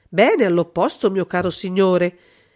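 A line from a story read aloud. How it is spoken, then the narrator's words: King exclaiming. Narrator (Italian): esclamò il re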